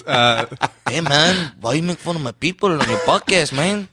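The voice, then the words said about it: Put-on comic accent. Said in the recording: “that's an accent.”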